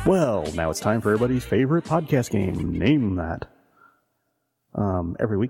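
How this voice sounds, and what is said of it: Game show host voice. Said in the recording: “talking like a weird game show host”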